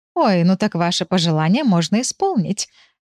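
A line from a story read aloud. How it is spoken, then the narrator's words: Laughing. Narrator (Russian): рассмеялась Матильда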